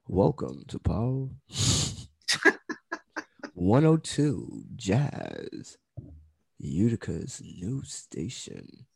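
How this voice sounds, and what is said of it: Radio announcer voice. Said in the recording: “This is my radio voice.”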